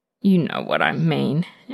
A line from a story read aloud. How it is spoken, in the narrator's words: Anton grumbles against his lips